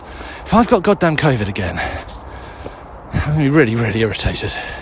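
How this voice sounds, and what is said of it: Out of breath. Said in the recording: “I'm really out of breath in a way that seems incongruent with my level of fitness”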